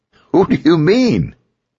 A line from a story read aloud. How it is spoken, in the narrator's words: Ethan laughed